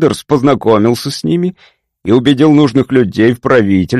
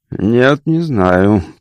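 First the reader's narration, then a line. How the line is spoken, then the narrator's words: Mumble. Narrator (Russian): пробормотал Дэвидсон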